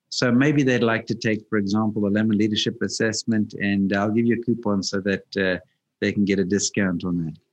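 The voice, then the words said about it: Soothing South African accent. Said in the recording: “South African accent ... very soothing and very encouraging”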